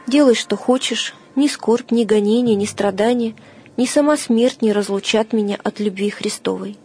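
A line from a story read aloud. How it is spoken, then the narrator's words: Calm answer. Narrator (Russian): Феодор спокойно отвечал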